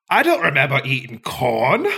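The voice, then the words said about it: Attempted Scottish accent. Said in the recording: “learning the Scottish accent”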